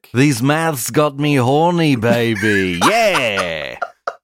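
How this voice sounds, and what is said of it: Austin Powers impression. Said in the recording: “do an Austin Powers impression ... Yours is pretty good.”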